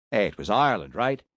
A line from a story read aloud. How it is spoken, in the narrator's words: He chuckled mirthlessly